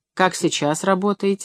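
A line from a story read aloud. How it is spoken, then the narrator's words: Plain. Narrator (Russian): спросил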